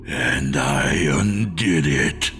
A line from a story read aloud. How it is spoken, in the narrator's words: the creature growled